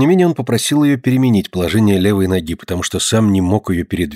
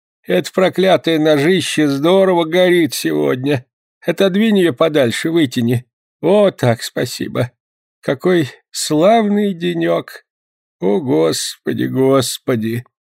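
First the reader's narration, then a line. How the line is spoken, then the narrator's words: Unconscious moaning. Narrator (Russian): он продолжал стонать, сам того не замечая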